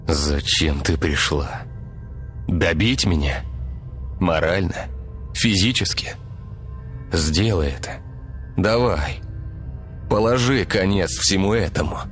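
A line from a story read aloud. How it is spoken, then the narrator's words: Sighing, suppressed anger. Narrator (Russian): вздохнул Игорь, сдерживая гнев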